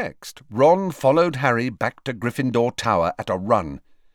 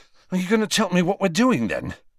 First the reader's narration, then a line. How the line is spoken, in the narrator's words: asked Ron, panting slightly